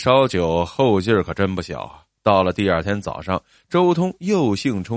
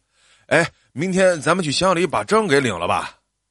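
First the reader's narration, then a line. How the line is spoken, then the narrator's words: Loud. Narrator (Chinese): 周通大声的说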